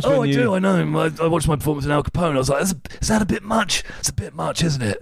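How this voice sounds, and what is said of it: Imitates another person's voice. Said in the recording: “do a Tom Hardy impression ... He's got a weird voice.”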